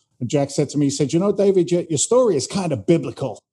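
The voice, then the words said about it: Mixed English and American accent. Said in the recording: “That's not a Boston accent, huh? ... No, it's Boston and London, a little bit of New York. It's a mess.”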